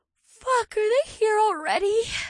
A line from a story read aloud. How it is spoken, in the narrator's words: Leah whined